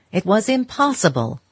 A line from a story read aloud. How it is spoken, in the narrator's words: he exclaimed